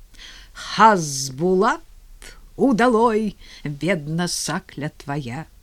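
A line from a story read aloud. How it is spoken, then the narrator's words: Slightly muffled bass singing. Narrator (Russian): Илья Спиридонович подхватил глуховатым баском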